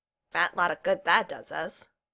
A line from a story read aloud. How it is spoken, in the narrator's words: Neil said dryly